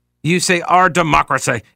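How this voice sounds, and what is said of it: Grave, jaw-jutting statesmanlike voice. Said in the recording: “in my best Winston Churchill voice ... it warrants that kind of gravitas ... the bottom jaw has to come out ... An underbite ... a stiff upper lip”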